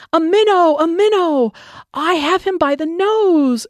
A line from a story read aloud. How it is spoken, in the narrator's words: cried